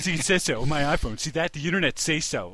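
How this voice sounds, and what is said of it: Simpsons fat guy character voice. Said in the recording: “that's a pretty good fat guy impression on ... Simpsons.”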